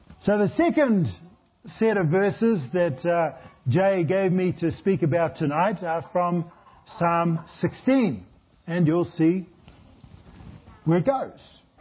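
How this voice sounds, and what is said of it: Speaker's own noticeable accent. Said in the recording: “if you haven't got tuned into my accent yet, it's too late”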